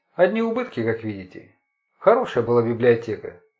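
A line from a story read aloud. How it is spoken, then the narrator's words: Sighing. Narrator (Russian): он вздохнул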